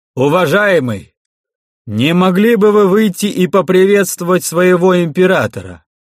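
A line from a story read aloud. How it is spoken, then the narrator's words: Loud magically projected voice. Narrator (Russian): громко сказал Кирсан простеньким плетением, направив звук своего голоса внутрь храма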